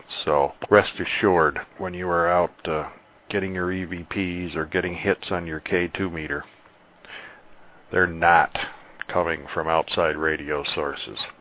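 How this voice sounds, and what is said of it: On-location news reporter voice. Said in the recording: “doing his best on-location reporter-type impersonation”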